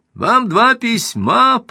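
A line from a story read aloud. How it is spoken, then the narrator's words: Shouted, high falsetto. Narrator (Russian): прокричал он высоким фальцетом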